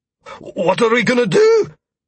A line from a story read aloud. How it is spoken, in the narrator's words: Quincy asked worriedly, his voice breaking as he spoke